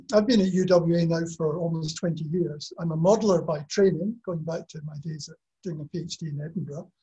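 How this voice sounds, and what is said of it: Scottish accent. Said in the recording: “I have a Scottish accent, so uh, your ears have to tune into that”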